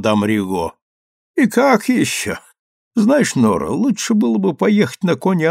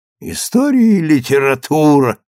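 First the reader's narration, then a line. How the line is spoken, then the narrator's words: Laughing mutter. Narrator (Russian): смеясь, пробурчала мадам Риго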